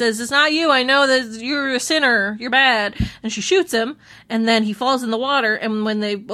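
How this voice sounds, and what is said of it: Usual voice. Nothing is said of it.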